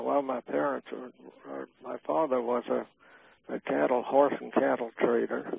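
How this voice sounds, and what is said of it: Louisiana accent. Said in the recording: “you still have your Louisiana accent with you”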